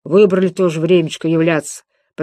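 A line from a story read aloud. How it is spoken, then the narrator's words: Grumbled. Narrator (Russian): пробурчал он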